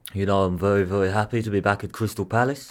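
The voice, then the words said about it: Impression of Roy Hodgson. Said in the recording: “do the Roy Hodgson. Get him to do the Roy... Shall I do my Roy?”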